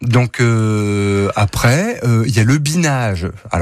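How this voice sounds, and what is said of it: Usual voice. Nothing is said of it.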